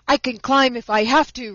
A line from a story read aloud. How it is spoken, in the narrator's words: reported Johnny Chuck indignantly